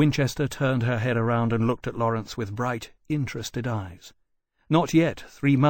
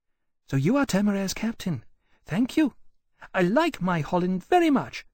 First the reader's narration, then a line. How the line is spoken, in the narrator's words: she said, in a light, chirping voice